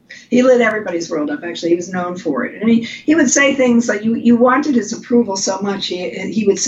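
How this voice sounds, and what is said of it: Usual voice. Nothing is said of it.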